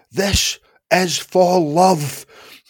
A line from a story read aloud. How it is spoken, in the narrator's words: screamed